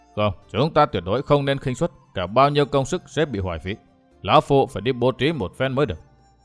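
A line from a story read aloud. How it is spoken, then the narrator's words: Stern, cautious old voice. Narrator (Vietnamese): Đặng lão bảo chủ vẫn nghiêm nghị nói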